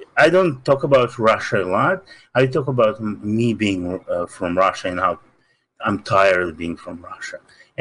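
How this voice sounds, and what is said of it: Russian accent. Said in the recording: “I have this accent immediately. I cannot hide it ... I'm from Russia”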